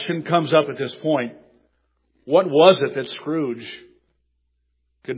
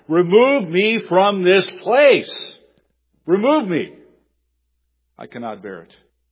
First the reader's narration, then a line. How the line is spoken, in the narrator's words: in his dream that he cried out to his spirit guide